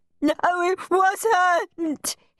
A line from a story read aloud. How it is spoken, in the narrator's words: he sobbed